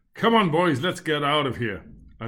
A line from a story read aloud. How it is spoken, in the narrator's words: and asked